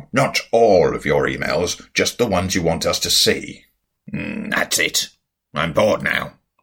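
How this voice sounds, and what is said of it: Acted character voice, sounds altered. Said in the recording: “It's such a good voice. ... that sounds like you're using a voice changer. ... It's called acting”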